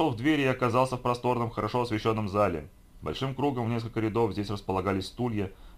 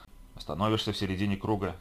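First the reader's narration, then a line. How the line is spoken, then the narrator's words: Soft quiet voice. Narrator (Russian): тихонько сообщил мне сопровождающая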